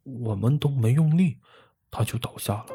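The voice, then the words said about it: Quiet muttering voice. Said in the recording (Chinese): “士兵小声嘟囔”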